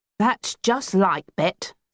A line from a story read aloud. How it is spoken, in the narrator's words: Steve grumbled